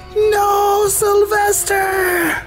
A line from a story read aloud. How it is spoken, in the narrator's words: She screams